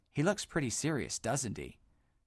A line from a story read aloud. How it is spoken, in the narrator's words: Buck whispered in Dodd's ear